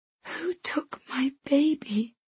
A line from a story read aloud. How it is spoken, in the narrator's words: I whisper